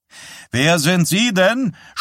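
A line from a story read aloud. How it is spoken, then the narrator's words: Shouted at someone. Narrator (German): schrie einer der Reporter Wysack an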